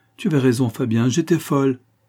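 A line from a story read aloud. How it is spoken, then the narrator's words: Exclaimed. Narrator (French): s'écria-t-elle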